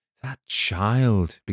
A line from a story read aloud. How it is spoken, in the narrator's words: began Clifford anxiously